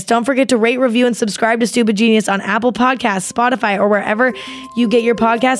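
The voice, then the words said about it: Very fast rushed speech. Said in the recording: “Literally foaming out the mouth right now because I said that so fast.”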